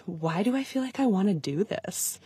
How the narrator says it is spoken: whispering

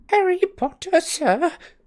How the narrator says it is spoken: squeaked the elf, trembling from head to foot

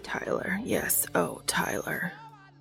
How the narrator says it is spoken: Castiel whispers

